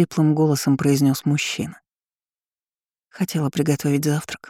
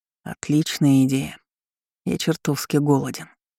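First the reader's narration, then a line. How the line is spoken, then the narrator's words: Level voice near ear. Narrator (Russian): ровным голосом произнес Данилов рядом с моим ухом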